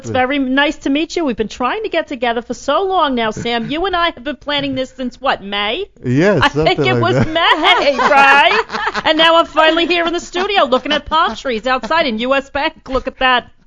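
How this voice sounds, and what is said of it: Rosie O'Donnell impression, thick New York accent. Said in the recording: “do a little Rosie O'Donnell for us ... you got the accent to match, right? I mean, that's a very New York accent that Rosie has ... I think she's Brooklyn ... she's really got that thick accent”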